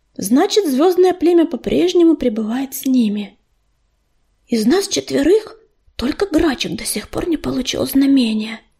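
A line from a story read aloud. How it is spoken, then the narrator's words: Whispered. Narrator (Russian): прошептала ласточка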